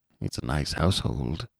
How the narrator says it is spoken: he murmured

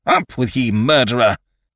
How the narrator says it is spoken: cried Ned

